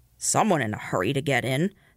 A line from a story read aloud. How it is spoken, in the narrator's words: the night porter grumbled